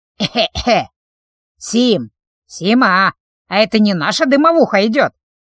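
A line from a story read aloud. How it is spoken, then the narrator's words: Creaky voice. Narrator (Russian): проскрипела Фима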